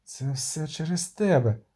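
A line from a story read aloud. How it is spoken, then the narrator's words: Croaked. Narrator (Ukrainian): прохрипіла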